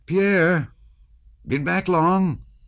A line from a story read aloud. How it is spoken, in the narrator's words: someone shouted